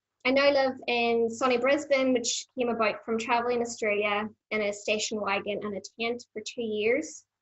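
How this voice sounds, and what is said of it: Strong Irish accent. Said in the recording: “I was born in the Green Isle, which may be obvious to most people. It's, you know, not a mellow accent, so I do tend to stand out.”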